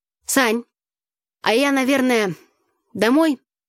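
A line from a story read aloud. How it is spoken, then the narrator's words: Timid babbling. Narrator (Russian): пролепетала она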